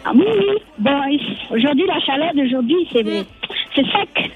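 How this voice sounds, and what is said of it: Ivorian French accent. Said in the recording (French): “j'ai l'accent ivoirien”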